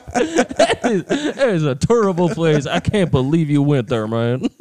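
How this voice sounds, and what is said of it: Imitates another person's voice. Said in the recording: “racist Charles Barkley ... I think my accent kind of went into like Boomhauer there”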